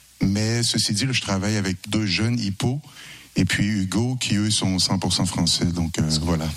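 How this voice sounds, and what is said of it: Québécois French accent. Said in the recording (French): “Du Québec... à mon accent, vous voyez que je ne suis pas encore devenu français du tout”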